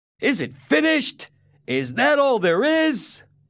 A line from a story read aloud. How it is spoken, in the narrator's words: Someone in the audience shouted out